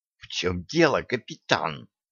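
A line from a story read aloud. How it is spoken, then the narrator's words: Angry hiss. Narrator (Russian): сердито прошипела Стесси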